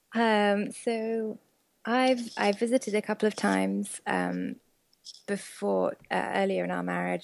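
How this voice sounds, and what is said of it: British accent. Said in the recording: “you are British, as some listeners may have caught just by your accent”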